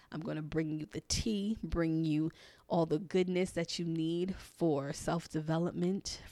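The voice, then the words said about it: Weak, barely-there voice. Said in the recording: “if I sound like I'm barely talking on these podcasts ... losing my voice”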